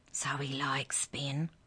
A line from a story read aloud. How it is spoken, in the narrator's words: Keisha whispered